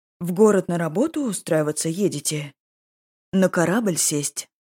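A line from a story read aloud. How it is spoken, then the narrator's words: Plain. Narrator (Russian): ответил Санат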